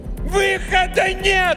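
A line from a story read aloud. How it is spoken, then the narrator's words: Yelled in face. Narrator (Russian): заорала она прямо ему в лицо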